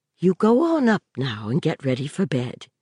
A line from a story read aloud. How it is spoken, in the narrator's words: she said quietly